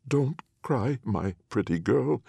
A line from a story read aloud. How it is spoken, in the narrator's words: said Anne of Rags, her voice now faltering a little